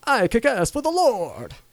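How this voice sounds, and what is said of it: Exaggerated Dracula-like accent. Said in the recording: “why do you make him sound like Dracula? ... He's from New Zealand, dude. They got accents. ... Yeah, but not Dracula accents.”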